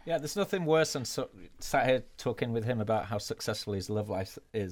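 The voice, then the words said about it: Speaks with a noticeable accent. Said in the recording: “listen to that accent.”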